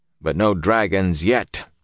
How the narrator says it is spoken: he chuckled roughly

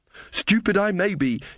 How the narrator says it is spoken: she panted

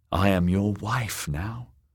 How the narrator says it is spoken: whispered

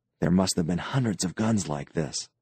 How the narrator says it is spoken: Doral murmured

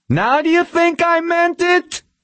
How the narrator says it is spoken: the employer screamed

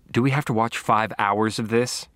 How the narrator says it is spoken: Deborah asked

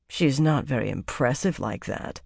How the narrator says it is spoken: Savannah muttered, frowning

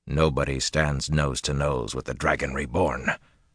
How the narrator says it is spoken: Rand growled

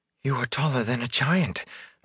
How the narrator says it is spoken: Egwene said breathlessly

